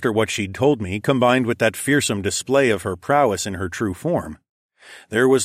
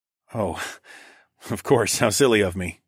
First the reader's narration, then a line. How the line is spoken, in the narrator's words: chuckled